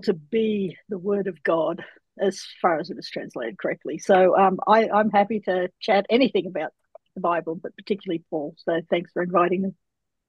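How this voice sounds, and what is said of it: Australian accent. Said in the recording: “our audience can probably tell that ... is from Australia”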